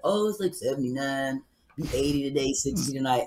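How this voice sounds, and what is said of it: Imitates another person's voice. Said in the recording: “I'm imitating my husband. ... I know his mannerism.”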